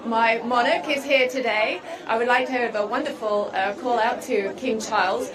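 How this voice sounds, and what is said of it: British accent. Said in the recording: “have a strange British accent.”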